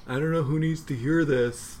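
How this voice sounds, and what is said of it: TikTok creator impression. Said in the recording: “my impersonation of a TikTok person”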